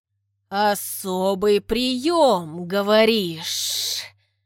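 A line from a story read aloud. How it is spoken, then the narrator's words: Drawl. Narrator (Russian): Протянул Саха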